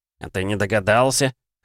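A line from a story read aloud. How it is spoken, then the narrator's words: Snort. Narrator (Russian): хмыкнул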